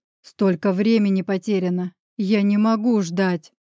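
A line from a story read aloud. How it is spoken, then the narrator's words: Growled. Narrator (Russian): прорычал я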